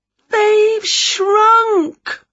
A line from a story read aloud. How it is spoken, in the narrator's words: wailed Winnie